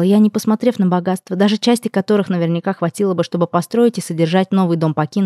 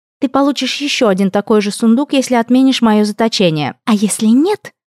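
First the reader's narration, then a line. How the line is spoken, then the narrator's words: Threatening triumphant hiss. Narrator (Russian): прошипела брюнетка, в голосе ее слышалась угроза, щедро сдобренная триумфом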